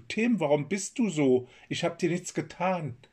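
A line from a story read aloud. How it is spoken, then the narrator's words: Calling out. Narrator (German): Kai rief seinem Bruder zu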